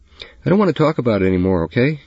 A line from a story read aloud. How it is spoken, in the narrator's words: He said, raising his voice to her for the first time